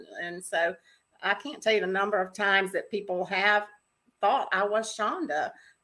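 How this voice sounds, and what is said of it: Southern US accent. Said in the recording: “both raised in the South. And so, of course, our accent ... I guess I will never be confused with a Southerner”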